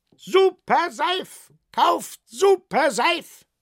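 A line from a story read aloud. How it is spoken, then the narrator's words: Shouting fair vendor. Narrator (German): schrie der Jahrmarktverkäufer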